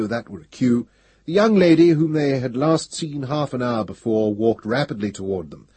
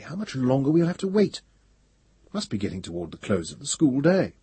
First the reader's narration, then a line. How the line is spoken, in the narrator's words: said Pellerat uneasily